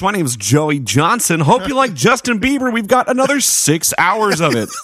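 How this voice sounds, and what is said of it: Radio DJ announcer voice. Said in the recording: “A radio voice. ... Checking out a new radio voice.”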